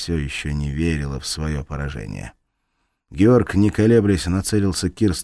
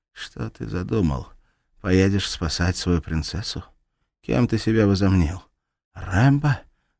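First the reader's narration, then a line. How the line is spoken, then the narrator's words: Muffled, through gritted teeth. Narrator (Russian): Глухо процедила она, сплевывая кровь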